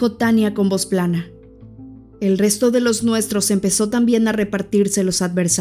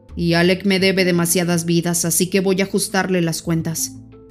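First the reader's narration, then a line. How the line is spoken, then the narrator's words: Grumbled. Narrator (Spanish): refunfuñó Vladimir a un costado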